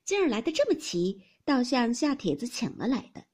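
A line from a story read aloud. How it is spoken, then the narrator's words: Laughing. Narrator (Chinese): 凤姐笑道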